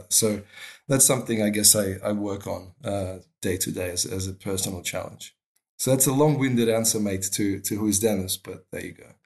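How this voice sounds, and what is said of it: Australian twang. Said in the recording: “I'm detecting an Australian twang there ... There's a twang, mate. Yeah. There's a bit of Australia there.”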